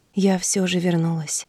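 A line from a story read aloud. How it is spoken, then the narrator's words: Whisper. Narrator (Russian): прошептала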